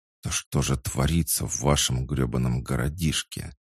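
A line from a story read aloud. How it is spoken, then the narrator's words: Whispered growl, out of curses. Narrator (Russian): шепотом рыкнул Ллойд, когда запас ругательств иссяк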